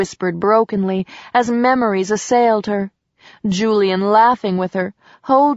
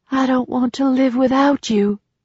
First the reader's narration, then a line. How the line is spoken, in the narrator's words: breathed